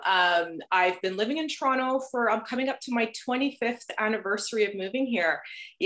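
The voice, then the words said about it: Slight New Jersey accent. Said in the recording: “originally I'm from New Jersey. So if you detect a slight little accent, and of course there's always those certain words I say that just kind of comes out the accent”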